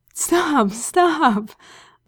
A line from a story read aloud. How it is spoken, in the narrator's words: Aziraphale begged, voice high and thin